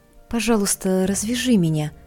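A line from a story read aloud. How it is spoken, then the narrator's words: Soft female voice. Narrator (Russian): мягко сказала я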